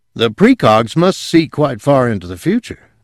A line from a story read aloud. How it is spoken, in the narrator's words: Whitwer exclaimed